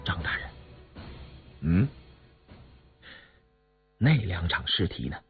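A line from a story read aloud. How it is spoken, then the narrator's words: Soft, suppressed anger. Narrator (Chinese): 杨明石强忍着心头的激愤，轻声说道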